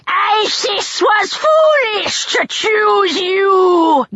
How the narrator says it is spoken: Neckbet yelled

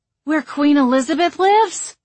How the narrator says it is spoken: Hazel exclaimed

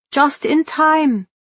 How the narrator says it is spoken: Marianne cried

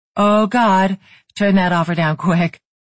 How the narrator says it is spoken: Brooke said with a laugh

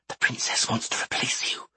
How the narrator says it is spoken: Inthira whispered, her lips brushing Dothan's ear

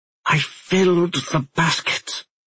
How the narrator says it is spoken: she whispered in reply

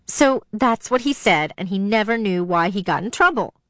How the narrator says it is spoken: Dee Dee laughed

